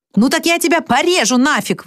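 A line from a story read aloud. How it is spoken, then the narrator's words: Hybrid creature yelling. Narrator (Russian): вопит гибрид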